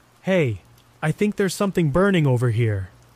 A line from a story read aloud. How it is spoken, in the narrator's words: I called out, my voice trembling